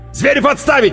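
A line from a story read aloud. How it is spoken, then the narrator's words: Barked command. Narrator (Russian): рявкнул майор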